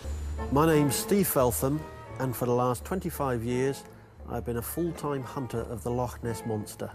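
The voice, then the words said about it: English accent, not Scottish. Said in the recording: “It's not Scottish ... Sounds like he may have come to Scotland from Britain ... for sure ... England.”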